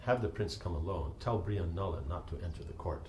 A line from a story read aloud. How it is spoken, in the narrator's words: Yudhishthira whispered to him